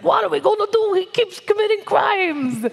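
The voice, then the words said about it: Mob lawyer character voice. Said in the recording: “your mob lawyer impression ... somewhere Joe Pesci just felt a chill because that was great”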